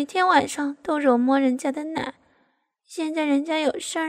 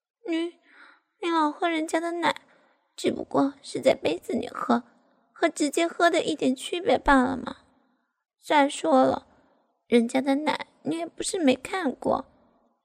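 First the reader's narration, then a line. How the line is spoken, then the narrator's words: Muttering. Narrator (Chinese): 我这样说着，嘴里依旧嘟囔着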